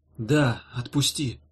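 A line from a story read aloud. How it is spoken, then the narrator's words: Tired repetition. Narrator (Russian): повторила Ирка устало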